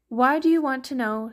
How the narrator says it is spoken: says

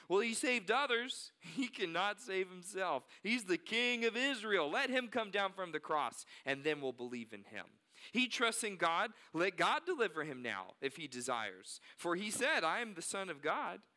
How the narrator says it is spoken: So also the chief priests with the scribes and elders mocked him, saying

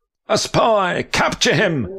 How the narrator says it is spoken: the rat guard shouted

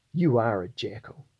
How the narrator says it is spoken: she says

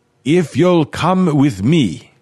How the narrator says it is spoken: Renard shouted

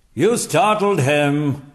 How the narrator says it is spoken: barked General Littlefield

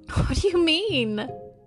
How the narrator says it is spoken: Cindy wailed

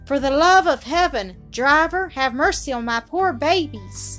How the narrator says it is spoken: in a sort of desperation shrieked to the man

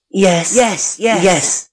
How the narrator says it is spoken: they answered eagerly

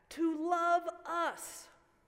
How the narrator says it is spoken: 16 other voices yelled back

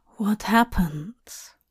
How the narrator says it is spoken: Hop murmured to Dream's ear

